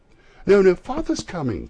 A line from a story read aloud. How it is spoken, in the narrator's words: cried the two young Cratchits